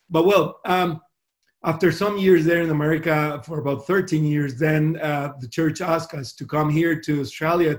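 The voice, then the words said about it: Spanish-American mixed accent in English. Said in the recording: “that funny accent? ... I speak Spanish and I learn English in America, so I, ha- I think I have a, a, mix, a weird mix there”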